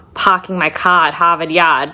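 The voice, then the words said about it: Put-on Boston accent. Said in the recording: “I can do a Boston accent”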